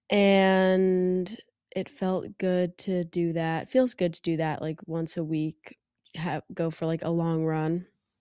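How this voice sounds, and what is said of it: Nasal, congested sick voice. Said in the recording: “I don't know if you can hear in my voice. I am a bit sick. ... my voice is nasally”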